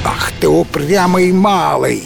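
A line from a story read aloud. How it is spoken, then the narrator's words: Laughing. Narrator (Russian): хохотал Гром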